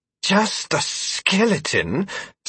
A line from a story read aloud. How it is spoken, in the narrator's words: Stanton gasped